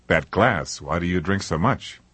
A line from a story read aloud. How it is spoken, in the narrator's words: He sighed deeply